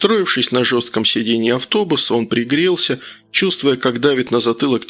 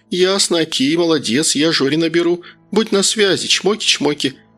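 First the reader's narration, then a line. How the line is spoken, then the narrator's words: Cheerful chirping. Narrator (Russian): весело прощебетала Татьяна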